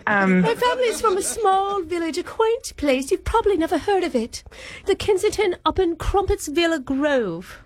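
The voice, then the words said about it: Put-on English accent. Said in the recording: “I'm a little surprised by your accent ... You're both English sounding.”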